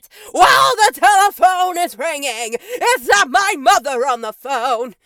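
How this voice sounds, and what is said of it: Yelled singing, imitating a singer. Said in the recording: “you have to yell it ... that's not my best Andy Summers impersonation”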